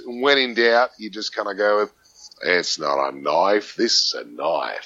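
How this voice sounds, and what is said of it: Put-on Australian accent. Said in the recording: “Can you do an Australian accent ... sometimes it sounds a little bit more Kiwi”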